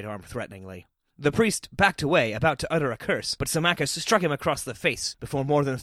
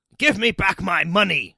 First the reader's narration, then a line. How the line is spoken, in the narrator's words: Symmachus snarled